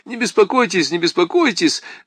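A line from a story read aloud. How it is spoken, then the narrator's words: Rapid chatter. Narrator (Russian): затараторил Киндерман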